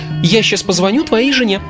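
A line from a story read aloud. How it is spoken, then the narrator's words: Cheerful promise. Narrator (Russian): радостно пообещала Ларин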